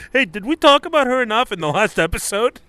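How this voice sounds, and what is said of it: Impression of co-host. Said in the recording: “It's a very good impression of me.”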